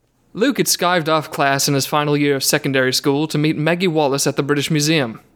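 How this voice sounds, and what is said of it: Poor put-on British accent. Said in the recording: “We'll see if I can make this story at all British while I'm reading it ... my British accent has not improved. It has gotten possibly worse.”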